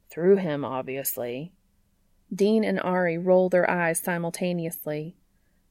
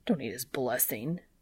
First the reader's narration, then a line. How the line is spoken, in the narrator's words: Dean mutters